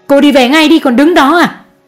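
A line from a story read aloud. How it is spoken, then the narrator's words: Mother shouting. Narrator (Vietnamese): Mẹ chú Đại hét lên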